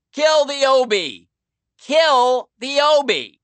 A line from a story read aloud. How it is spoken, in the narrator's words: he shouted out to his guys in his sandpapery voice